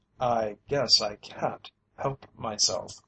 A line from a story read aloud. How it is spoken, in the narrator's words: replied Mr